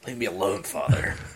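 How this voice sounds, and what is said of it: Impeccable impression of a character. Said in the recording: “do a fucking impeccable Snake impression,”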